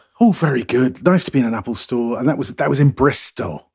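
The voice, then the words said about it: Bristol English accent. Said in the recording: “you sound like my father-in-law. He's from Bristol.”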